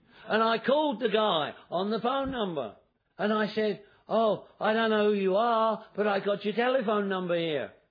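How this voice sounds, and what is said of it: Non-American accent. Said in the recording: “I can tell by your accent, because in America they think I got an accent too”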